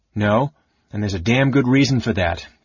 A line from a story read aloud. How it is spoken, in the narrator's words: Karaman snarled